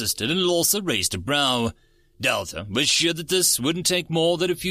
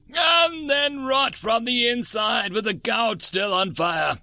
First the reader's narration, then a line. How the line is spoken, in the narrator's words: Lawsa screamed